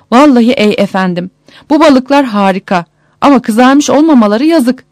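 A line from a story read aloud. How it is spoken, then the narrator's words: Exclaiming loudly. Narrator (Turkish): diye haykırmış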